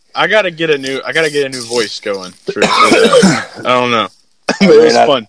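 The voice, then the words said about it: Hoarse voice. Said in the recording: “I'm hoarse.”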